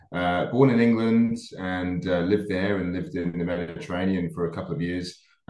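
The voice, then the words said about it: Mixed New Zealand and English accent. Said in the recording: “I've still got a little bit of an accent. I think it's probably a combination of Kiwi and English.”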